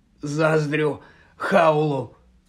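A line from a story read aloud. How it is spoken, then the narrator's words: Hoarse rasp. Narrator (Ukrainian): прохрипів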